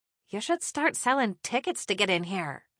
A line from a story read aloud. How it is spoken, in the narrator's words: Charlotte whispered